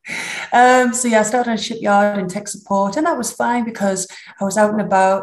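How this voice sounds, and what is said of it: Strong northern English accent. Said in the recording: “I don't think you could get much more northern than that. So I hope you're going to subtitle or dub this for my accent.”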